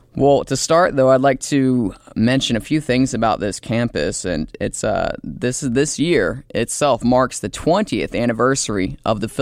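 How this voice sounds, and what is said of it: Stuffy, congested voice. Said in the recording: “excuse my voice. It's a little bit stuffy today ... I woke up a little bit stuffier than usual”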